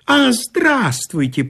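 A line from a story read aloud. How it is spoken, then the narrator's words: Squeaky voice. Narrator (Russian): пропищал инженю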